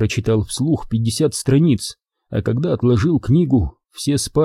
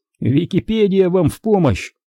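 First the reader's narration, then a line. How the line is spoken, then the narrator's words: Joking. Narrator (Russian): пошутил Дэйв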